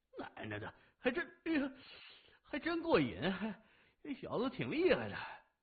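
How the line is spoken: Pained, barely moving lips. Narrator (Chinese): 三眼腮帮子上传来剧痛，只好微动嘴角说

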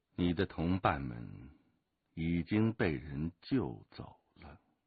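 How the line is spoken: Deep grave voice. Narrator (Chinese): 金先生沉声说道

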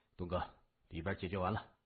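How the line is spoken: Soft. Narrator (Chinese): 三眼 轻声说

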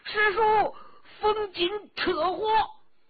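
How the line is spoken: Alarmed frantic scream. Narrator (Chinese): 冯辉大惊啊，狂叫

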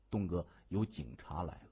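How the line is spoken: Low voice. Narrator (Chinese): 金眼儿 低声说

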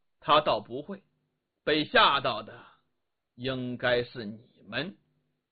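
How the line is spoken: Faint, calm smile. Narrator (Chinese): 李元芳淡淡一笑

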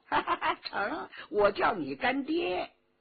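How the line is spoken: Laughing. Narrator (Chinese): 佟兆和笑道

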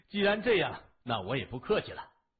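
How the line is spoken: Laughing while speaking. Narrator (Chinese): 向问天笑着说

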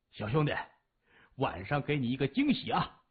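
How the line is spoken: Sly laugh. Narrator (Chinese): 马武贼笑着说

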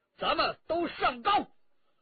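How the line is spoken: Shout. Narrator (Chinese): 陈家洛叫道

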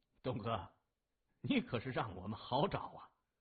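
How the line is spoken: Grinning. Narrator (Chinese): 副驾驶的警察回头咧嘴一笑

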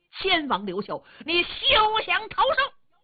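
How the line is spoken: Loud distant shouting. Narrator (Chinese): 老远就听见有人高声喊嚷

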